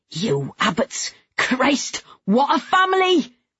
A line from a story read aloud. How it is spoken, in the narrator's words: His voice rose